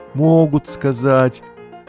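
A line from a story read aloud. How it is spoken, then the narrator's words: Mother's sigh. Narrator (Russian): вздохнула мама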